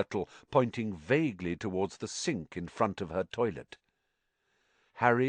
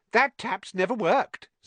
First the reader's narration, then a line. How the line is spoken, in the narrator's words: said Myrtle brightly